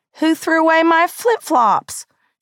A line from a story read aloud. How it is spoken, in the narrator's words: she cried